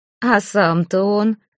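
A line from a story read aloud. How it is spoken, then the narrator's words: Laughing. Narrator (Russian): засмеялся Жировит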